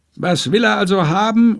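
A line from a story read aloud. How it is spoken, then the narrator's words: Merchant calling out. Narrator (German): ruft der Händler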